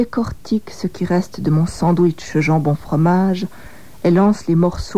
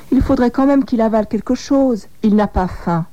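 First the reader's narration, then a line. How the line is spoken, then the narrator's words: Curt dry remark. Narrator (French): dis-je sèchement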